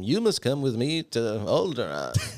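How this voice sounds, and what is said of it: Imitates another person's voice. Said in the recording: “That's perfect. Best impression. ... my Alec Guinness right there.”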